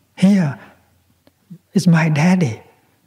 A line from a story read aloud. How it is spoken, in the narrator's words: suddenly little boy shouted